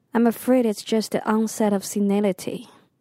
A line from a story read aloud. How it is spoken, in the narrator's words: the doctor said